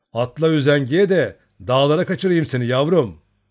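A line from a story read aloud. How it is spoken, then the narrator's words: Shouting. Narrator (Turkish): diye bağırdı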